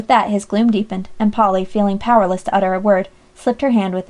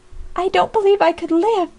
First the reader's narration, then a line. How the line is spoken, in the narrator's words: cried Polly off her guard